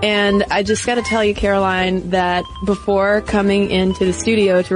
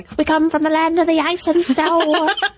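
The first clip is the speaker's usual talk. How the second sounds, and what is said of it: Imitates a rock singer's voice. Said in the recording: “my Zeppelin impression”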